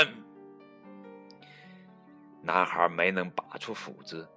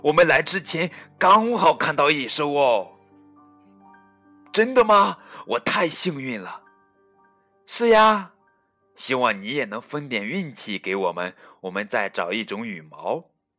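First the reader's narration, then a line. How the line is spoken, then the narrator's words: Excited shout. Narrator (Chinese): 卡梅利多兴奋的喊道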